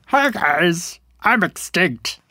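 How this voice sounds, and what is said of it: Silly dinosaur character voice. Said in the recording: “do your dinosaur voice.”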